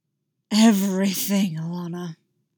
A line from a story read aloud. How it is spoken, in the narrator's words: he growled